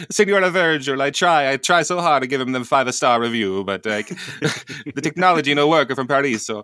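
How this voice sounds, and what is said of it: Put-on Italian accent. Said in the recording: “speaking with an Italian accent”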